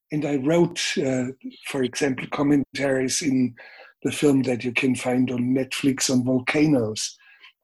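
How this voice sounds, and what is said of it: Bavarian German accent. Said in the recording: “your Bavarian accent, your voice”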